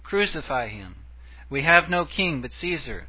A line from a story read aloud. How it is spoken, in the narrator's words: In Pilate's court they had cried